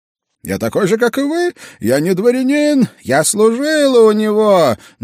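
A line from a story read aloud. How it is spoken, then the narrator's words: Shouted. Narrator (Russian): крикнула все та же девица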